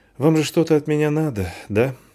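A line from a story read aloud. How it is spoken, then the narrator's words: Sighing. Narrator (Russian): вздохнула девушка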